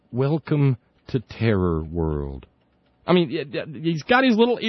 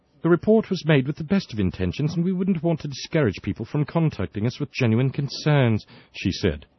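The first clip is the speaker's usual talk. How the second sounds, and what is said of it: Put-on accent reading a quote. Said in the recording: “I hope the accent was okay.”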